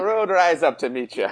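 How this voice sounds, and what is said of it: Put-on Irish accent. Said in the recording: “someone's in the spirit ... I tried to practice this accent, and I don't think I can do it ... I was so into my accent, my great, great accent”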